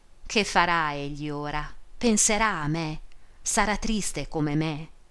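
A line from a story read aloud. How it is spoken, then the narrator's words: Muffled lovesick sigh. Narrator (Italian): sospirava con la bocca soffocata nel velo, oppressa da un irresistibile bisogno d'amore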